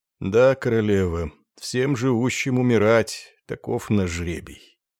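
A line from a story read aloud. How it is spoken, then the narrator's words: Reproachful. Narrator (Russian): с упреком ... ответил, слегка покачивая головой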